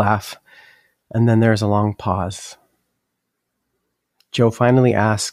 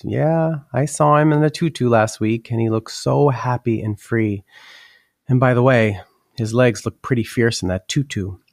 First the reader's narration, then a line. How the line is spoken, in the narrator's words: Joe chuckles and says